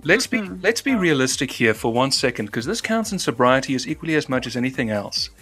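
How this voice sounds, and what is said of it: Transatlantic accent. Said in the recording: “There's me who communicates in a transatlantic accent.”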